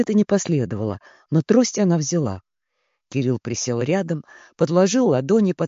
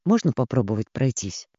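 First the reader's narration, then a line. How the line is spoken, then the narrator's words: Quiet. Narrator (Russian): тихо сказал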